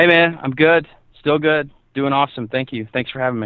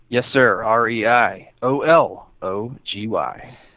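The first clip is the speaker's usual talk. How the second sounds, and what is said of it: Announcer-style radio voice. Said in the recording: “a good uh, radio voice there? ... you do have a really good taste for radio”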